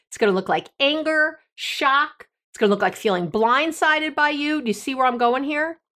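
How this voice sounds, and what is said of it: Loud, excited yelling. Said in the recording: “I'm yelling, aren't I? Sorry. I got so excited.”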